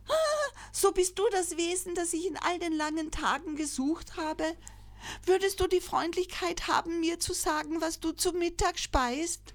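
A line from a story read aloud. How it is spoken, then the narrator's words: Joyful call. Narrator (German): kniete am Ufer nieder und rief freudig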